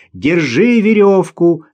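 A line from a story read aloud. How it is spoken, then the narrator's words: Shouted. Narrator (Russian): закричал он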